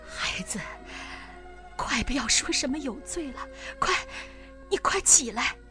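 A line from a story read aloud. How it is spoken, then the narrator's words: Choked with sobs. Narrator (Chinese): 索加哽咽着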